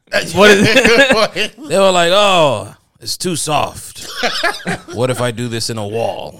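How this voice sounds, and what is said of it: Put-on stereotyped Mormon voice. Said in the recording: “I don't know why I put on that voice, but it just seems appropriate. ... That seems like the appropriate Mormon voice.”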